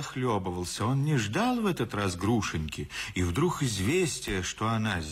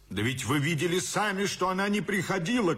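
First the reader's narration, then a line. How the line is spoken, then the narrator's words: Shout. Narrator (Russian): кричал Иван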